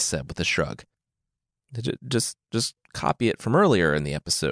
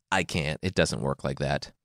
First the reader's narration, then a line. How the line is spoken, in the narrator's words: Xanthias said